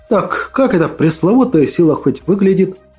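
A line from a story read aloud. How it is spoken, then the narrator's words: Plain. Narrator (Russian): Вновь спросил я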